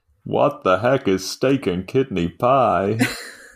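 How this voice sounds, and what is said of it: Put-on generic American accent. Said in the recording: “That was an American accent. ... Was that just generic American accent?”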